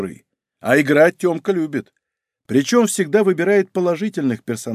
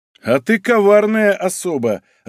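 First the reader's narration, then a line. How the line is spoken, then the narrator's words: Laughing, inwardly disappointed. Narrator (Russian): рассмеялся я, внутренне чувствуя некое разочарование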